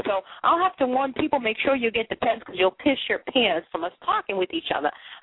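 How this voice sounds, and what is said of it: Boston accent. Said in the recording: “listen to how I sound. It's my Boston accent. I can't help it”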